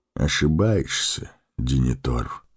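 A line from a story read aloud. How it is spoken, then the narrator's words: Quiet. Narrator (Russian): тихо промолвил маг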